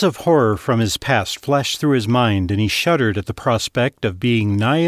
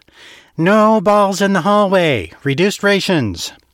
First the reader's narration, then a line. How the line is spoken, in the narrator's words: a grubby man in brown overalls whined